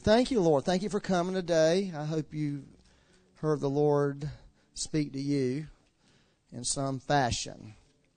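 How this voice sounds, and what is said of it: Southern American drawl. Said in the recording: “they were having a hard time with the southern drawl”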